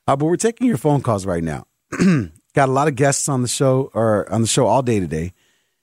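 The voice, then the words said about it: Voice sounds weird, going hoarse. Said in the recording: “I think my voice is going after. It sounds weird now.”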